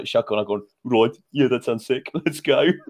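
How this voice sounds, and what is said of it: Attempted Birmingham accent. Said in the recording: “Was that your attempt at a Birmingham accent? ... I'm not really sure what it was.”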